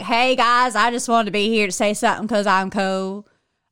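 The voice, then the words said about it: Put-on Texas accent. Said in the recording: “I'm from Texas, so I can make that accent”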